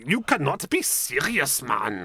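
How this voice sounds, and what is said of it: Poor fake German accent, sounds Glaswegian. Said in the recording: “they're German ... What part of Glasgow are you from? ... I'm very bad at accents.”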